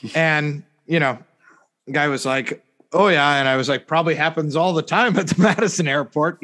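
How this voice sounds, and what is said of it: Usual voice. Nothing is said of it.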